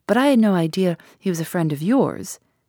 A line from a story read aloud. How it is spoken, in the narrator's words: said Cynthia gaily